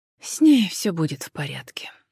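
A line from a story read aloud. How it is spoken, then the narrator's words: Sighing. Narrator (Russian): вздохнула Джен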